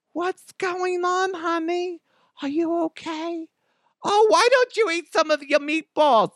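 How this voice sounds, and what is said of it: Exaggerated motherly voice, Jewish-sounding accent. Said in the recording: “would that be a Jewish accent?... my mama voice... I'm stealing Adam Sandler's mom's voice... just a mom voice... it sounds like a mom”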